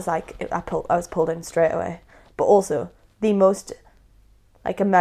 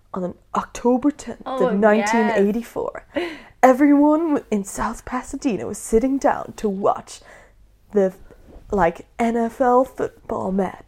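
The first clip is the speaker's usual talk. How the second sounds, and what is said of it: Put-on American narrator accent. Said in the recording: “it's so American ... Sorry if I'm offending anyone with my accent.”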